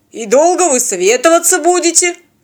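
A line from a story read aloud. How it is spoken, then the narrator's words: Mock grumbling. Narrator (Russian): для вида проворчал работорговец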